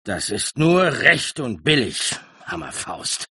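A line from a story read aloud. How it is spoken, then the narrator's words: Flushed, growling. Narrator (German): lief rot an, knurrend sagte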